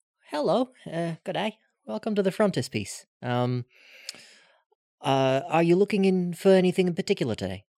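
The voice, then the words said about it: Put-on friendly voice, Australian accent. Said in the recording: “put on my best friendly voice ... Australian?”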